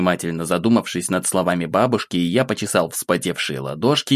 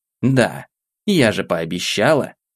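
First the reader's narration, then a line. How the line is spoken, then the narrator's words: Calm reply, old woman. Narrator (Russian): спокойно ответила баба Маша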